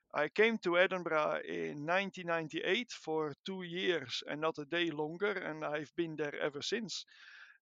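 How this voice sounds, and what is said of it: Dutch accent in English. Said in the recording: “as you can hear from my accent, I am not Scottish. I'm not British. I'm, I'm Dutch uh, from origin.”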